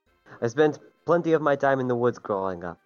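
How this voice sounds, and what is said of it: Put-on made-up accent. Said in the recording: “I don't know what this accent is, man. ... It's Colossian.”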